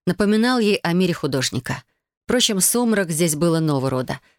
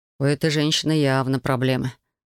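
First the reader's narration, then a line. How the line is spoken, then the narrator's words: Sighing artist. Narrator (Russian): вздохнул художник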